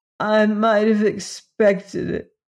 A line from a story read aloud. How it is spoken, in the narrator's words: sobbed miserably